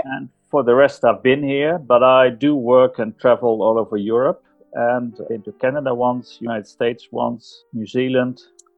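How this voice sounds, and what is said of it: Dutch accent in English. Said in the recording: “I'm sure that my audience hear your accent. ... I'm Dutch. So I was born and raised Dutch.”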